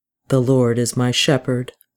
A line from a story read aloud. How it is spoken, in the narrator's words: Charles said